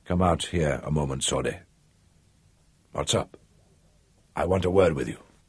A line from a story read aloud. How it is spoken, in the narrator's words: The deputy said in a low voice